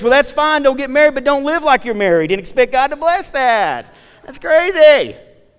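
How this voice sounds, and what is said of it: Loud, vibrant near-yelling preaching. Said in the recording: “I'm not yelling. I'm just in a vibrant tone.”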